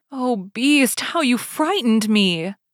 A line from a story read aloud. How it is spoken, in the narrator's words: she cried